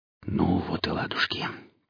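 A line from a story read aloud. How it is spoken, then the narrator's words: Whispered. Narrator (Russian): прошептал Бонд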